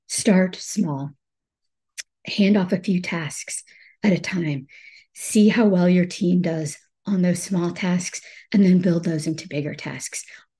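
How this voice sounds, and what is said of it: Hoarse, weak voice from cold. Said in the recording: “I've had a cold and I've lost my voice.”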